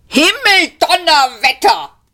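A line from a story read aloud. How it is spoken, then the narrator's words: Roaring shout. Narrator (German): brüllte er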